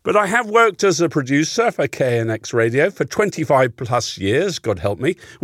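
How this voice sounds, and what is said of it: English accent. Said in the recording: “that is an English accent, you hear. And yes, I don't come from round here originally.”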